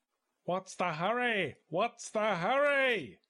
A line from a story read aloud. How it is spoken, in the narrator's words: yelled Mr